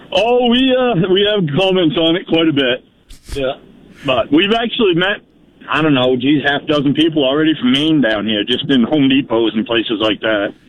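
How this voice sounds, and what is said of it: Down East Maine accent. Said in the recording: “you got a real old line accent ... You got a down east accent”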